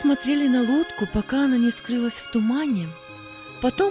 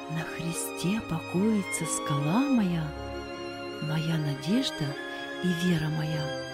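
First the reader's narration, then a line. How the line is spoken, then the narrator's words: Soft fading singing. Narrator (Russian): пока он удалялся, все на берегу слышали, как он тихонько напевал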